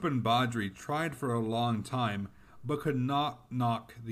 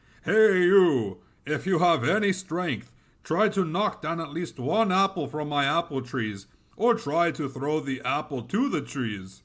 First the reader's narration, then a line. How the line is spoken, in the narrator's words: shouted at them